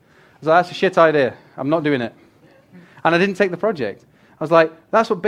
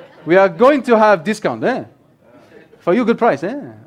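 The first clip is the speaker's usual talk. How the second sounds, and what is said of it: Put-on foreign accent. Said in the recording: “I do not know what this accent is”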